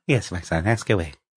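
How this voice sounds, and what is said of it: Mock papal voice. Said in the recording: “do the Pope voice”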